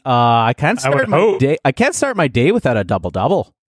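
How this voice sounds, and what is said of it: Put-on Canadian accent. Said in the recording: “Can I do a Canadian accent?”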